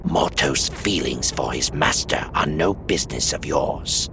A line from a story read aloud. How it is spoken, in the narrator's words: rasped the woman